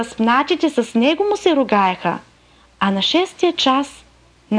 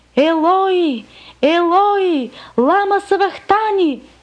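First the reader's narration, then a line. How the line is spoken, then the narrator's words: Loud cry. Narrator (Bulgarian): Исус извика с силен глас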